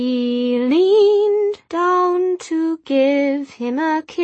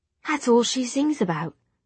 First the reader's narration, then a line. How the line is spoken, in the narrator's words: she whispered